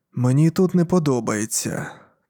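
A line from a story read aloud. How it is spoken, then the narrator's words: Quiet. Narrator (Ukrainian): тихо промовив я до Кастін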